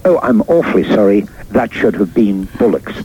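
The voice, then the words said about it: Posh BBC announcer accent. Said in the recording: “in my best BBC voice”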